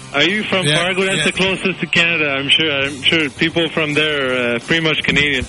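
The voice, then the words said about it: Thick French Canadian accent. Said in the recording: “I'm French Canadian. I got a thick accent”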